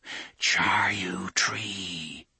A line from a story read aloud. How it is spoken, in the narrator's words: they whispered